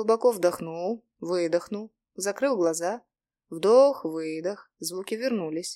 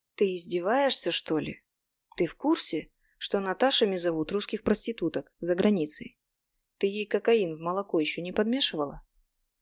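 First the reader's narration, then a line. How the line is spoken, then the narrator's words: Quiet. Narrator (Russian): Говорил я тихо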